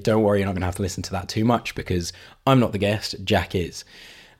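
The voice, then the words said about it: Hoarse, partly lost voice. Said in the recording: “my voice isn't completely normal. I have been struggling with losing my voice”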